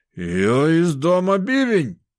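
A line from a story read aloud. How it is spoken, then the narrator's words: Shout. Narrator (Russian): выкрикнул он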